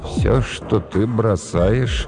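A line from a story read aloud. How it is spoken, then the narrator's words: Weak voice. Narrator (Russian): сказал слабым голосом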